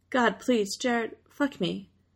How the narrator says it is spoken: Jensen moans brokenly

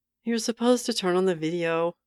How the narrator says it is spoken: grumbled one of the students

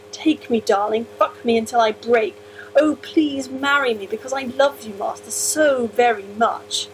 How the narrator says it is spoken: he moaned

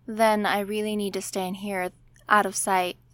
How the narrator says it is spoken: Steve says

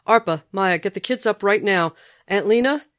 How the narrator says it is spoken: Sam shouting

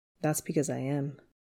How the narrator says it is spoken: He kisses Peter softly and says

